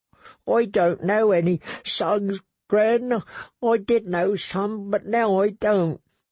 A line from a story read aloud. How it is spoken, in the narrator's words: He sobbed again and said